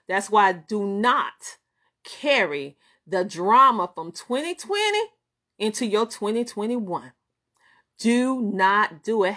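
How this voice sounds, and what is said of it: Southern American twang. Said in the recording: “I'm Southern and you know I have that Southern twang.”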